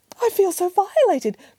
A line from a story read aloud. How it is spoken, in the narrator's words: cried the mother bear